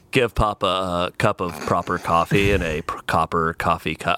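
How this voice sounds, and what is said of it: Patrick Warburton impression. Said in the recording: “I'll try to go over to here to Patrick Warburton ... That's actually really good.”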